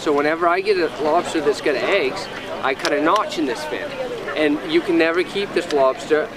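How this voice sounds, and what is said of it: New England accent. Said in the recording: “Sounds almost. Uh, Australian. ... it's a New England accent.”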